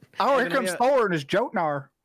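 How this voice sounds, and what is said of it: Put-on Texas accent. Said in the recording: “Got my Texas accent.”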